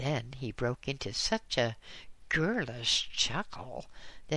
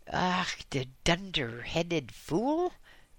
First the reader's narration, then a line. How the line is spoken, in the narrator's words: exclaimed the professor angrily